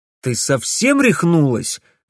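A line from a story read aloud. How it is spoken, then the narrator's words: Indignant exclamation. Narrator (Russian): возмущенно воскликнул Алекс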